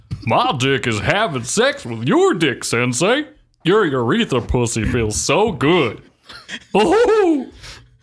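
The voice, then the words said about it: Goofy flamboyant cowboy voice. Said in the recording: “You have to do it in a goofy voice. ... You sound like a cowboy. ... A flamboyant cowboy.”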